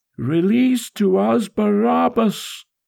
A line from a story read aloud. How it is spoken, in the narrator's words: one single voice in the crowd shrieked